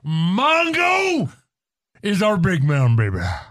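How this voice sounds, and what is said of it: Imitates another person's voice. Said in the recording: “my first Flair impression”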